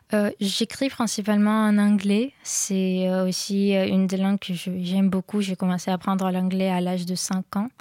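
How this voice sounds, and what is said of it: Strong Slavic accent in French. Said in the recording (French): “j'ai un accent très fort, j'ai un accent slave qui s'entend beaucoup.”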